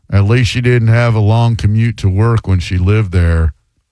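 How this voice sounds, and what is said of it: Imitates another person's voice. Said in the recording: “Here's my Marine Rob impression.”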